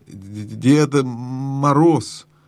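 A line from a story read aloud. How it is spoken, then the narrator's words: Stammering reply. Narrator (Russian): запинаясь, ответил лис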